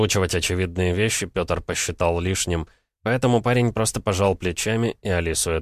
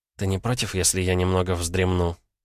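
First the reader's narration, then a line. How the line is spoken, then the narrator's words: Tired, sleepy question. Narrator (Russian): устало поинтересовалась девушка сонным голосом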